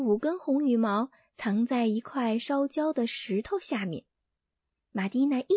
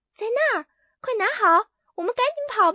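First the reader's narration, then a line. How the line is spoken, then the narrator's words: Hurried shout. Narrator (Chinese): 连忙对着露露喊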